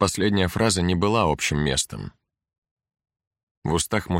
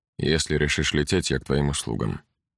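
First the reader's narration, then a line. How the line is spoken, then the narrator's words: Quiet. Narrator (Russian): тихо добавил Гесс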